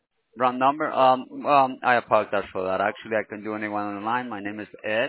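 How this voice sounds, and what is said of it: Heavy foreign accent. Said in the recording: “accent is so heavy. I cannot understand.”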